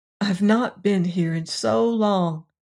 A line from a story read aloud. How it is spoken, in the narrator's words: she sighed